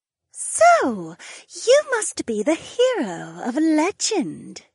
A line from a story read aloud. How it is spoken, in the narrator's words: the visitor purred